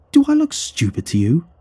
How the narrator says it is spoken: the surgeon exclaimed

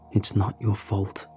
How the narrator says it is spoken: I whispered

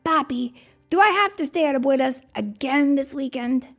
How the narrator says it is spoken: Diego whined

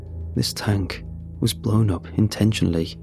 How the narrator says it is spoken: As if to himself, he muttered

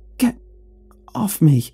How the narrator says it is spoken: stammered, voice breathless

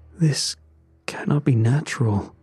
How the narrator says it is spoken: he muttered

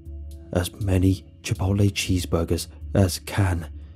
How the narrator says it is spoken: he hissed

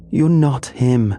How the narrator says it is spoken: she screamed, her voice raw and trembling

